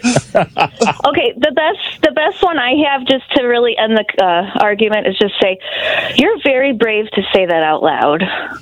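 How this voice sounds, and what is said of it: Out of breath, breathy speech. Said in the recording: “you're out of breath ... I want to know why you're out of breath.”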